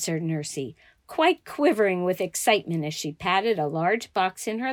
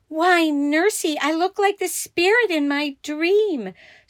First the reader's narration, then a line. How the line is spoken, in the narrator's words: exclaiming